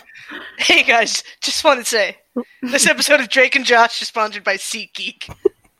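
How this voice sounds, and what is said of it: Spot-on impression of someone. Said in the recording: “good at the impression. ... Too good at it.”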